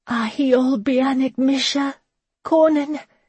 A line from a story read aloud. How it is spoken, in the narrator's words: she cried out